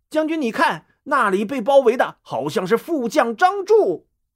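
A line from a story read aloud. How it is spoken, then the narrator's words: Soldier, loud. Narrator (Chinese): 一个士兵大声说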